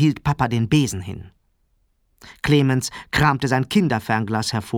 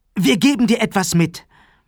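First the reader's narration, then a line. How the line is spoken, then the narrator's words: Calling. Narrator (German): rief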